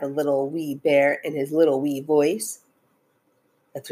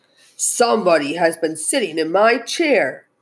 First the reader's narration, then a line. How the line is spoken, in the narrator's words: said the great big bear in his great big voice